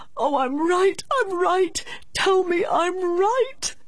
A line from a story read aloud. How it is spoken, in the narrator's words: he cried out as a child